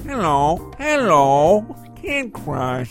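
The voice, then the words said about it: Imitates another person's voice. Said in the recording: “I'm perfecting my Beepy impression.”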